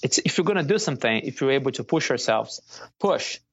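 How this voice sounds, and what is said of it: Brazilian accent. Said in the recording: “You can definitely hear an accent, and I know you're from Brazil”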